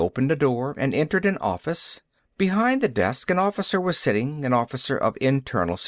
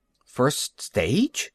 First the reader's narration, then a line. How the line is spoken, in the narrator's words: Taylor repeated nervously